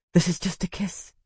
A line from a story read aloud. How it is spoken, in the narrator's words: whispered against his mouth